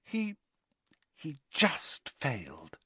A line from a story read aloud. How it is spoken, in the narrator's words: whispered Hermione